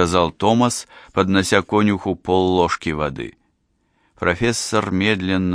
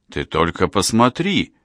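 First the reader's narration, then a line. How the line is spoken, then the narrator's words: Joyful exclamation. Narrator (Russian): радостно воскликнул Томас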